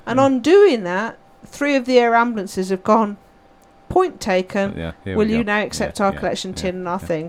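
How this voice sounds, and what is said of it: English regional accent. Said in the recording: “as you can tell from the accent, I'm not from these parts”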